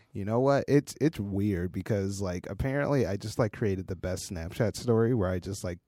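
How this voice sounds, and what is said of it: Very hoarse voice. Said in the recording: “my voice is super hoarse because I got incredibly wasted at a wedding”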